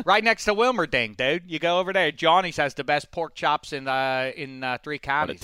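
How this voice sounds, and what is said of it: Badly done regional Pennsylvania accent. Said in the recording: “What a terrible accent.”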